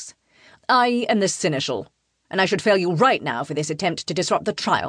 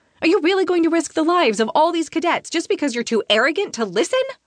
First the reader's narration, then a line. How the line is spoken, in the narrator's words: I blurt